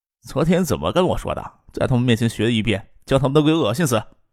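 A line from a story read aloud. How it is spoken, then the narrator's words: Laughing woman. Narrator (Chinese): 叶晓彤笑着说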